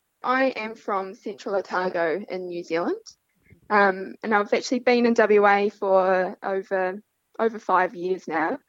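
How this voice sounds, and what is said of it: New Zealand accent. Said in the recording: “we can tell by your accent that you're not originally from the Pilbara”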